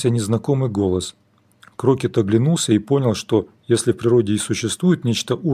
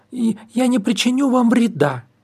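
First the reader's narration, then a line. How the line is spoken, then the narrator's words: Loud shout over battle, gnome woman. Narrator (Russian): закричала гномка, стараясь перекрыть гул сражения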